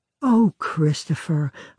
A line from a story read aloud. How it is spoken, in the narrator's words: a bride might sigh